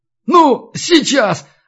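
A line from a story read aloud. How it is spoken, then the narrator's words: Excited shout. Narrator (Russian): азартно выкрикнул белорус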